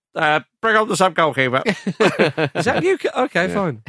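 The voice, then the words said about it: Imitates another person's voice. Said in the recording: “do a good Ancelotti impression... It's going to have to be better than that one”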